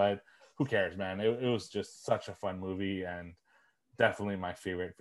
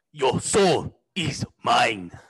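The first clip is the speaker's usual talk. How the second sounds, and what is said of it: Imitates another person's voice. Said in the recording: “That's a good impression.”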